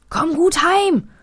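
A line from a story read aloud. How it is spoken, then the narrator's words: Calling after someone. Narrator (German): ruft Paul ihm noch hinterher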